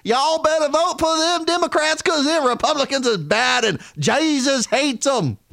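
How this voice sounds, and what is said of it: Put-on Southern accent imitating Hillary Clinton. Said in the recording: “Hillary Clinton, remember, every time she'd go to the South and she'd get on stage, say, suddenly get a real Southern accent”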